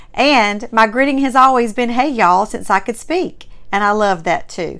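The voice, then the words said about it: Strong Southern American accent. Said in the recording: “You have a very strong Southern accent ... having a Mississippi-born Southern heritage”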